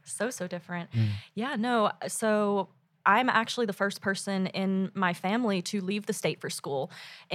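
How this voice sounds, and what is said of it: Southern American accent. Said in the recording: “Hence the accent, the southern. ... Yes, of course, the accent.”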